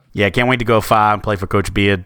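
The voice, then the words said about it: Put-on Boston accent. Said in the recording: “That's really good Boston accent work there, folks. Park the car and have it yet.”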